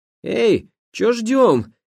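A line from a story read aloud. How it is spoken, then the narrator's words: Shouted. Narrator (Russian): крикнул Агафон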